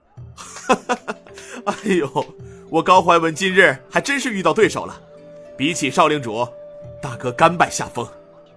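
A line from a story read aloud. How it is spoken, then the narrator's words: Hearty laughter. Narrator (Chinese): 高怀文哈哈笑道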